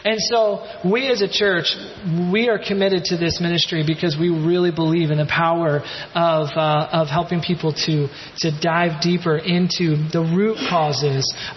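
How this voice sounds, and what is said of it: Eastern accent. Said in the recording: “my Eastern accent doesn't allow me to say root”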